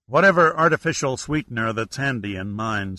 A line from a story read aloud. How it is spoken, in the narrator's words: said Ragsdale